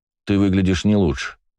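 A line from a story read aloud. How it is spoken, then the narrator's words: Calm retort. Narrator (Russian): спокойно парировал я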